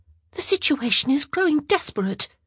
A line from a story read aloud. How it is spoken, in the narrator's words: she whispered to Sophie